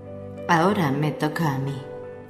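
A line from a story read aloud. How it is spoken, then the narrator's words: Muttered to oneself. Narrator (Spanish): murmuré para mis adentros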